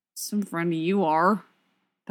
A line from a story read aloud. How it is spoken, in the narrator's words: Bucky mutters